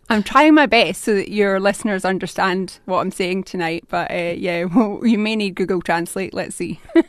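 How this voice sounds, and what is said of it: Glaswegian Scottish accent. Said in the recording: “That's a Scottish accent, isn't it? ... It is indeed a Glaswegian accent.”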